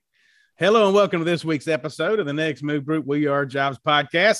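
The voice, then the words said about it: Deep Southern American accent. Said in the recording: “I'm saying it with this deep Southern accent”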